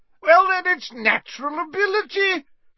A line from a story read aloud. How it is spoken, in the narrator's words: shouted Slughorn